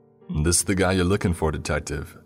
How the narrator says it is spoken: the younger of the two officers asked in a distinctly New York accent

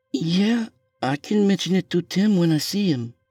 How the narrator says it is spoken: she said nervously

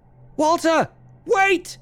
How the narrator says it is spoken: I screamed at him

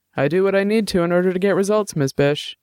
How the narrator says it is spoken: said

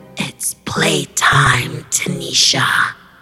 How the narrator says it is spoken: She then croaked

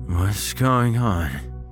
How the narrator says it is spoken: He asked, his speech slurred

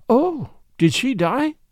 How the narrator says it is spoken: Mary exclaimed, quite without meaning to

